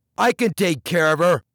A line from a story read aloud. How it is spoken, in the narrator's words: blurted Tech